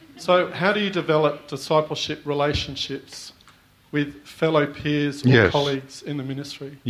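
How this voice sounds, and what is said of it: Noticeable, hard-to-follow accent. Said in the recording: “I just can't get the accent”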